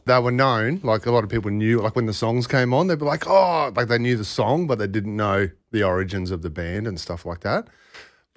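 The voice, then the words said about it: Australian accent. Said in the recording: “his Australian accent”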